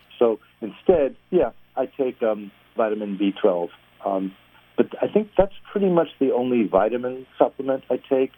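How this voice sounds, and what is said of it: New York accent. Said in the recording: “I hear a New York accent there.”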